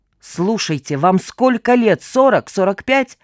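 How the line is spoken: Harsh bark. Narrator (Russian): рявкнул Остапчук

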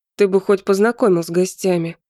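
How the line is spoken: Grumbling mutter. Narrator (Russian): пробурчал я

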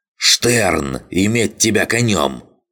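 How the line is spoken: Abbess barking. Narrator (Russian): рявкнула настоятельница

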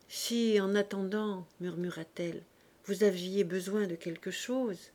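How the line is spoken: Timid. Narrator (French): timidement

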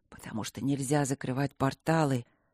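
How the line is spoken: Whisper. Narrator (Russian): прошептал темный

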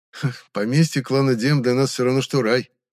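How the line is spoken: Scoffing. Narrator (Russian): хмыкнул Риз

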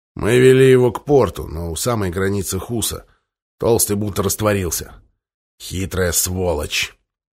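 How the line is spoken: Snorting. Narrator (Russian): Большой Флим хмыкнул

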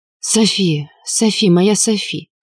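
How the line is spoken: Hoarse purring murmur. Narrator (Russian): Хрипло бормотал, почти мурлыкал мой Энксин

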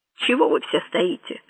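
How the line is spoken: Grumbled. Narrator (Russian): буркнул он

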